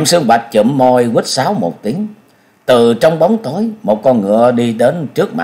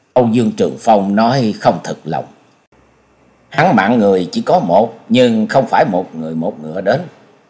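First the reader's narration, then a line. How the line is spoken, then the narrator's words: Muttering. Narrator (Vietnamese): Nhậm Sương Bạch lẩm bẩm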